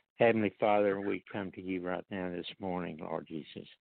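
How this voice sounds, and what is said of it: Hoarse voice. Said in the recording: “I've got some a little bit of hoarse throat”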